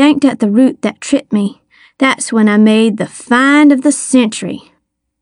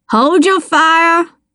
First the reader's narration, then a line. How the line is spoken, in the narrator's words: Star bellowed